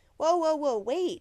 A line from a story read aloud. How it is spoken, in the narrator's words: Chuck cried, running to catch up